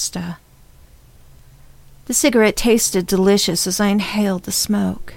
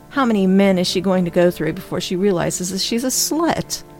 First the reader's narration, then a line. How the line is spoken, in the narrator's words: I laughed to myself